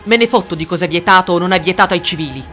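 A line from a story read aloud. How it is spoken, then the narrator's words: Shouted. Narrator (Italian): gridò Rudolf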